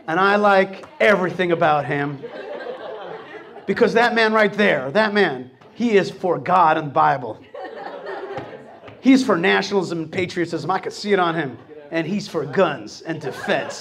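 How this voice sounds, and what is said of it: Put-on Texas accent. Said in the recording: “Is that your Texas accent?”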